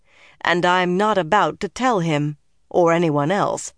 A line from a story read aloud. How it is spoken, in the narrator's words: Nynaeve said flatly